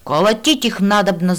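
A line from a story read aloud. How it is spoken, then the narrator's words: Yelling. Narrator (Russian): заорал кто-то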